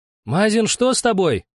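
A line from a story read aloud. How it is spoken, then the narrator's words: Shout. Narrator (Russian): крикнул Дрема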